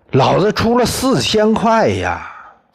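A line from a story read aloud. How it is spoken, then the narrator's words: Roaring shout. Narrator (Chinese): 铜铁匠吼叫着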